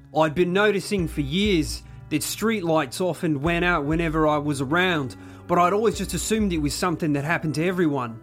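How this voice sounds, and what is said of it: Put-on Australian accent. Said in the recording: “do you want to do your best Australian accent? ... my award-winning Australian accent”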